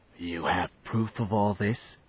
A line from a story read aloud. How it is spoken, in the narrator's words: whispered Turl